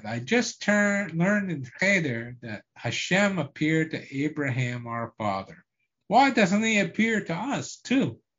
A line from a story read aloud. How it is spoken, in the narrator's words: cried